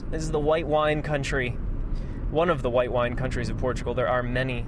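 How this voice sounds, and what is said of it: American English accent. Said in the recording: “I speak like an American... I speak with an American accent”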